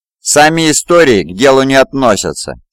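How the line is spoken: Angry speech. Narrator (Russian): сердито сказал

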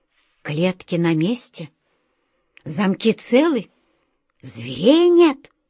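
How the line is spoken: Whisper in ear. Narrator (Russian): прошептал на ухо волшебнику Алёше Анатолий Иванович

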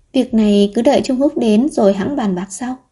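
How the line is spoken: Sighing. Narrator (Vietnamese): Địch Khương thở dài và nói

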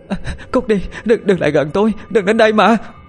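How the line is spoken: Terrified scream. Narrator (Vietnamese): Bà Thoa sợ hãi hét lên

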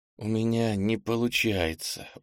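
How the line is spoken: Tired mumble. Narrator (Russian): устало пробормотал Кенни

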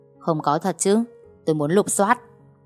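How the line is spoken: Angry, low voice. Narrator (Vietnamese): Cậu Thành tức giận, giọng anh ta trầm xuống

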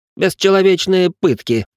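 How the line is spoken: Irritated explanation. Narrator (Russian): пояснил Ричард, раздраженно дергая щекой

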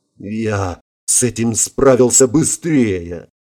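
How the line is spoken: Young man's hoarse mutter. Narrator (Russian): Хрипло пробормотал парень

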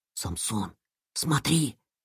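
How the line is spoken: Whisper. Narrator (Russian): прошептал Илья

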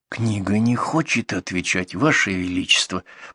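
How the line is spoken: Whisper. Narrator (Russian): прошептал Густав веселый

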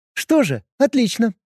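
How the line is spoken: Brisk young woman. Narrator (Russian): бодро отреагировала девушка

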